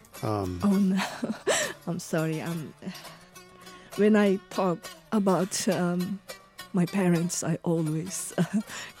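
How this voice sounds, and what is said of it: Tearful, crying voice. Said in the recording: “I'm sorry to make you cry.”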